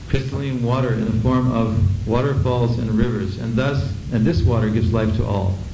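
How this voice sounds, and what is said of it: Strange accent. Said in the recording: “you have to bear with the strange accent.”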